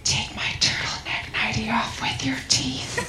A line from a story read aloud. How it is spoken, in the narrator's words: she whispered